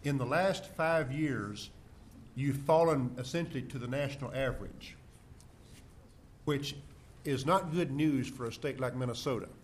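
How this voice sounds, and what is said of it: Southern American accent. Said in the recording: “From my accent, you can tell I'm from the South.”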